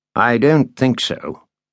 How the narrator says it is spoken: Landon said

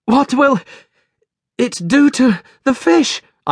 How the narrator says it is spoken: I gasped, with the last bit of air left in my lungs

